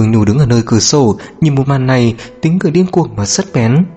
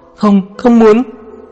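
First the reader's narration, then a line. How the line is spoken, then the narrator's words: Tearful uncontrolled scream. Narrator (Vietnamese): Nước mắt của cô bắt đầu lay động, thảm thương, gần như không khống chế được hét to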